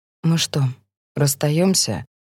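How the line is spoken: Even voice. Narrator (Russian): говорит Мэтт ровным голосом

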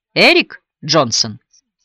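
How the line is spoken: Affirming tone. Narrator (Russian): утвердительным тоном уточнил Хойт

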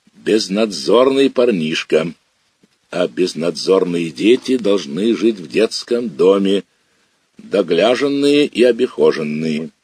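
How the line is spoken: Authoritative and stern. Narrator (Russian): Митроха сказал бабушке властно и строго

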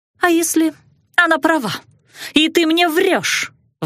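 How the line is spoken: Shriek. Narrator (Russian): взвизгнула кузина

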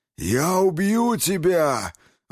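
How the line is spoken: Furious roar. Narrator (Russian): взревел Черный

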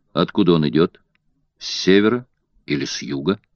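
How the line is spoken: Calm question. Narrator (Russian): спокойно спросил мистер Фок

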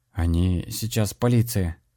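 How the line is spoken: Ashamed mumble. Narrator (Russian): пробурчал пристыженный Денис

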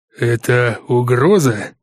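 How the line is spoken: Strained, deflated voice. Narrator (Russian): выдавил из себя сразу будто сдувшийся местный босс

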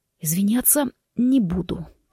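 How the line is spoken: Rasping. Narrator (Russian): прохрипел Форест

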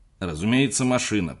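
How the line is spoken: Grumbling. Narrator (Russian): проворчал Готфрид

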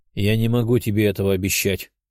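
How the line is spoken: Calm reply. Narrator (Russian): спокойным голосом ответил

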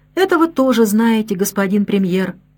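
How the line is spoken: Calm, tired voice. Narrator (Russian): Гамилен говорил спокойным, усталым голосом

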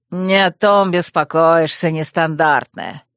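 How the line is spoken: Snorting, reluctant explanation. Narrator (Russian): Хмыкнул охранник и неохотно пояснил

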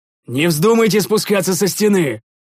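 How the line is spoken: Shouted warning. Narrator (Russian): закричал я

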